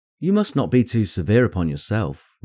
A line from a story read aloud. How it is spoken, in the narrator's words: replied Elizabeth